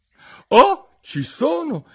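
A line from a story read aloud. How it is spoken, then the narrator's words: Exclamation. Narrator (Italian): esclamò Alice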